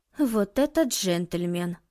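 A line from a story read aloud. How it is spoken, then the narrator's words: Mumbled. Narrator (Russian): пробормотала Юнцей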